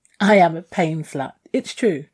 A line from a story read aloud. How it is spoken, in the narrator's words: I giggled